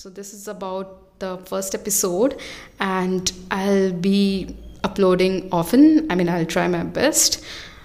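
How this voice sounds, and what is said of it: Noticeable non-native English accent. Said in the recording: “There would be a lot of pronunciation errors... about my accent, some might find it weird. But I don't think I should be apologizing for my accent”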